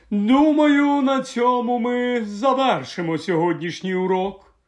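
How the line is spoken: Eerie otherworldly voice. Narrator (Ukrainian): так промовила професор Катрелоні своїм потойбічним голосом

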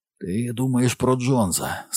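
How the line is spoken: Hoarse voice. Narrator (Ukrainian): сказав він хрипко

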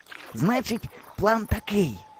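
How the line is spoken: Whispering. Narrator (Ukrainian): шепотів Кукурузо

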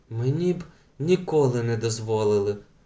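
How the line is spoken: Whisper. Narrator (Ukrainian): пошепки промовила Беата

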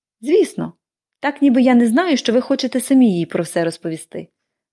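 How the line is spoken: Cheerful remark over shoulder. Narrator (Ukrainian): весело кинула вона через плече

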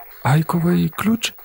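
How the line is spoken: Helpless questioning voice. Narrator (Ukrainian): безпорадним голосом перепитала міс Парсонс

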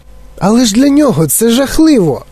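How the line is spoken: Exclaimed. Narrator (Ukrainian): вигукнув Чарлі

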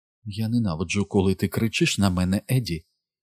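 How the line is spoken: Whispered. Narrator (Ukrainian): прошепотіла

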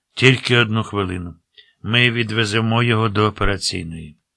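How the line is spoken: Sighing. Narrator (Ukrainian): Той зітхнув

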